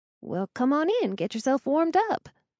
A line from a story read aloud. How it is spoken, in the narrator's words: I said cheerfully